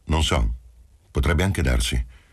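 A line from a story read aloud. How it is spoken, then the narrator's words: Curt reply. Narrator (Italian): Rispose seccamente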